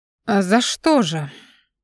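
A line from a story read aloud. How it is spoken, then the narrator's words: Tired smirking tone. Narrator (Russian): Он ухмыльнулся, но не ласково, а немного устало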